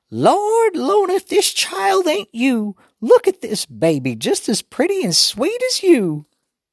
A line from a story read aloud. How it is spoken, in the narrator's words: Grandma Sands got her little squeaky voice back and said to Mama